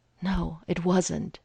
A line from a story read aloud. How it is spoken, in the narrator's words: he said breathlessly